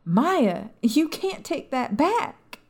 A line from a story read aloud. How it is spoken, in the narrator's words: Mary screamed